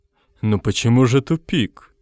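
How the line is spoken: Quiet. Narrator (Russian): тихо сказал Горбовский

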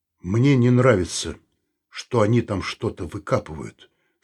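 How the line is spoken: Grim. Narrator (Russian): сказал он мрачно

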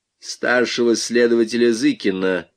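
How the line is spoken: Limp bossy voice. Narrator (Russian): произнес он вялым начальственным голосом

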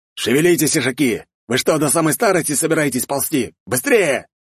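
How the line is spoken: Yelling man. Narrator (Russian): заорал мужчина

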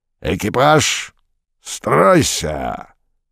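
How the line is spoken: Two-headed creature roaring. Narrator (Russian): взревел двуглавый Юл

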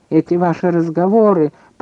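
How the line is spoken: Grumbling. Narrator (Russian): пробурчал Бромберг

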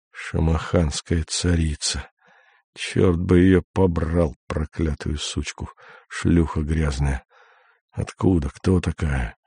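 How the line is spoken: Unintelligible muttering, foreign tongue. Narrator (Russian): Бормочет невразумительные на непонятном языке

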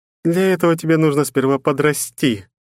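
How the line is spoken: Abyss laughing. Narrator (Russian): рассмеялась бездна

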